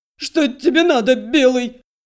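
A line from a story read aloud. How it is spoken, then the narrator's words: Shrill squeal. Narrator (Russian): Вновь взвизгнул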